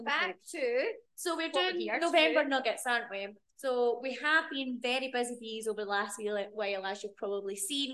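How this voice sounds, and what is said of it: Strong Scottish accent. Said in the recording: “I go have a right Scottish accent sometimes on the pod”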